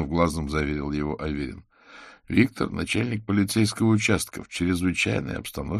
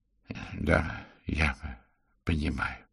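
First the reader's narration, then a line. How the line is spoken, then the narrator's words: Quiet. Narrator (Russian): тихо сказал он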